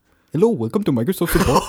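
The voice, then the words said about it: Put-on Indian accent. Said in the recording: “you do an Indian ... Indian accent ... that's pretty good. That's pretty alright.”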